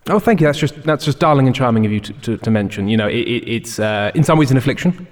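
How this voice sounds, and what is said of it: Put-on English accent. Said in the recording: “I do so love that English accent”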